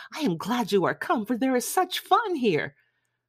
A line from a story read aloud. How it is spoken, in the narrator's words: Lydia, who, flying to her, cried in a half-whisper